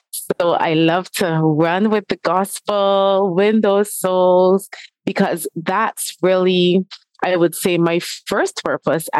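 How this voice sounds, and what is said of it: Speaks with a noticeable accent. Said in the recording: “I love your accent too, gal.”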